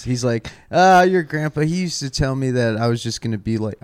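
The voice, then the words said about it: Put-on Southern accent. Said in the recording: “I don't know why I'm doing a southern accent,”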